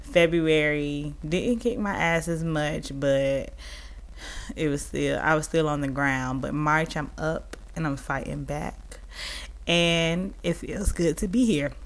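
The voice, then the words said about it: Rough, worn-out voice. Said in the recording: “I'm sorry y'all for my voice. This weekend I was partying and my voice just sounds like shit”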